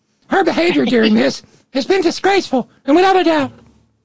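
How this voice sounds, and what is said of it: Too-low Ben Shapiro impression. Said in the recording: “my voice was too low for that.”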